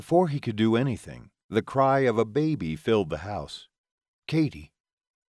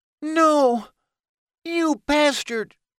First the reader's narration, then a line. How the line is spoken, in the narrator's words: Haven screamed